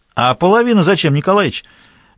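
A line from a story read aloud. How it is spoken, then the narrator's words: Loud question, old man. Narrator (Russian): Громко поинтересовался седой партийный журналист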